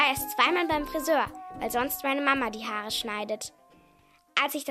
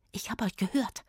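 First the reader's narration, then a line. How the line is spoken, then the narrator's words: Whispered. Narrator (German): flüsterte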